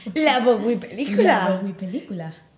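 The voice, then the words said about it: Announcer-style advertising voice. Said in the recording (Spanish): “pon voz de anuncio”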